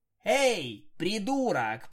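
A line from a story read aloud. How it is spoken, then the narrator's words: Shout across a hall. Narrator (Russian): прокричала я через весь атриум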